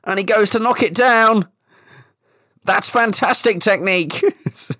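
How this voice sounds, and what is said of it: Football commentator impression. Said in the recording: “That is a really fucking good impression ... Football impressions”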